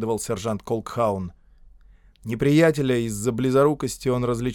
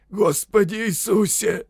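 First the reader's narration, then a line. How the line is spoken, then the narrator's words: Hoarse wheeze. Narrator (Russian): прохрипел кто-то рядом с Шарпом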